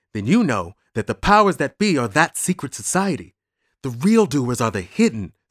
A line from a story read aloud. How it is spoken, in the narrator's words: said Bruno, in a stage whisper